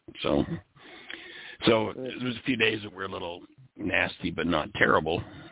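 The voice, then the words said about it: Deepened, slightly congested voice. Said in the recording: “My throat still sounds like I've come out of puberty. My voice is deepened. ... I've got a very, very slight bit of congestion left to my upper chest”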